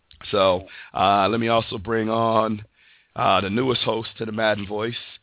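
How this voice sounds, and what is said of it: Rough, strained voice. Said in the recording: “you sound a little rough over there. ... my voice is uh, not cooperating ... under the weather”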